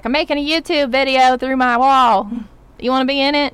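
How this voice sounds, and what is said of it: Put-on Texas-sounding accent. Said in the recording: “this girl's from Australia, not Texas. I don't know why I made that, look, that accent, wherever that's from”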